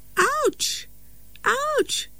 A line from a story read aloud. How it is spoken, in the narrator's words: cried Mr